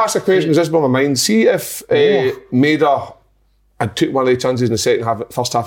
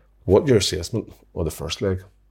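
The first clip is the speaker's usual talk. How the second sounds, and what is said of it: Irish accent, Eamon Holmes impression. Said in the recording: “My Irish ... His accents are unreal ... You're very good at that ... Eamon Holmes, he always licks his lips after he says something”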